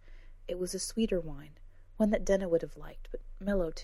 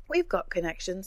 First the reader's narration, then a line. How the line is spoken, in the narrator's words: said Ez, with a light laugh